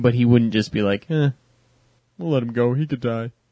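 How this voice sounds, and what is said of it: Imitation of Captain Picard's voice. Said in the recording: “my Picard impression ... That was brilliant”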